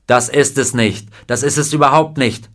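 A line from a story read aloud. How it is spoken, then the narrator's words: Offended shout. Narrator (German): schrie er praktisch, offensichtlich gekränkt von einer Anspielung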